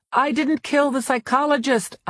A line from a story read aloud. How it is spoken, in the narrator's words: I shouted